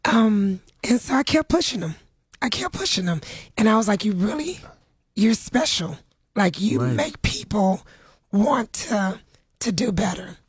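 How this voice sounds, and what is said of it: Tender, strained voice. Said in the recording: “You have to excuse me. My voice is a little tender today.”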